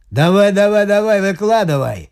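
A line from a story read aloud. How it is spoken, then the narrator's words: Rough shout, prisoner. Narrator (Russian): грубо прикрикнул на старичка один из узников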